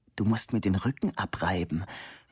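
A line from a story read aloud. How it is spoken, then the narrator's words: Whispered. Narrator (German): flüsterte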